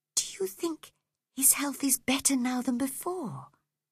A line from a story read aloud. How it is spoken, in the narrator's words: whispered Cathy